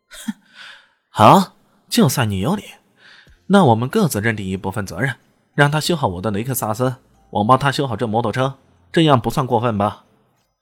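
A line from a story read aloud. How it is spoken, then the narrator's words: Smug cold sneer. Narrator (Chinese): 嘴角边上还露出一丝阴谋得逞的冷笑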